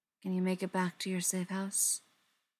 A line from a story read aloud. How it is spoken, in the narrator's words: Briar murmured, not wanting to draw him out of it yet